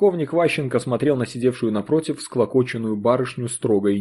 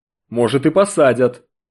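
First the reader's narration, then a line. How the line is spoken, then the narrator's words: Growling. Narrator (Russian): Рыкнул начальник колонии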